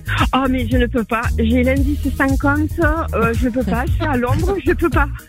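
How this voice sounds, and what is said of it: English accent speaking French. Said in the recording (French): “on entend bien l'accent anglais, là. De notre ami”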